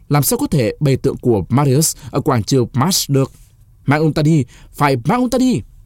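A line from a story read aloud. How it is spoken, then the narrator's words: Shouting in unison. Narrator (Vietnamese): Mấy người thuộc phái Sulla đồng thanh hét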